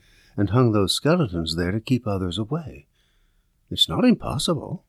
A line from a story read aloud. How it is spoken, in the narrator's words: I whispered